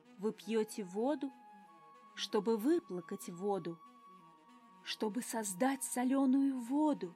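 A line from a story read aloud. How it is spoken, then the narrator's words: Delighted whisper. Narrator (Russian): Шептал с восторгом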